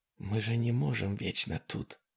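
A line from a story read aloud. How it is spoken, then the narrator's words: Whispering. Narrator (Russian): зашептала Дана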